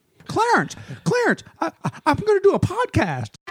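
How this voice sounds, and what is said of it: Imitates another person's voice. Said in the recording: “Jimmy Stewart impression ... it's a very poor one”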